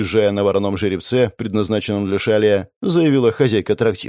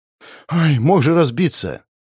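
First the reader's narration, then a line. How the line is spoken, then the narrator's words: Relieved exhale. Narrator (Russian): Облегченно выдохнула дочка коменданта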